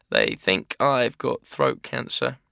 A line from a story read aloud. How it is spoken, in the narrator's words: croakily announced